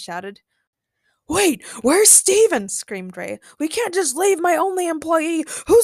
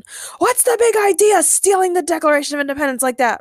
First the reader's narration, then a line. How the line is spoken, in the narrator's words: Ray screamed